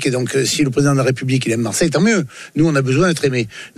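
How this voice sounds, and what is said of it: Southern French Marseille accent. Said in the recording (French): “on est du Sud. Ouais, ben on assume d'être du Sud, nous. On est du Sud, on a l'accent”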